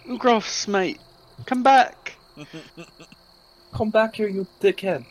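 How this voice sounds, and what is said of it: Put-on British accent, yelling. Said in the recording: “he sounded British there, but he sounded British.”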